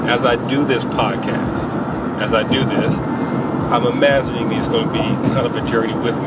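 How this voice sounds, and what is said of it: Speaks with a slight accent. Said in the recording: “a little bit of an accent. ... It will come out.”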